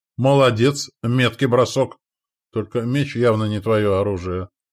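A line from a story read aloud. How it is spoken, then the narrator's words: Snorting. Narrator (Russian): хмыкнул Волейбор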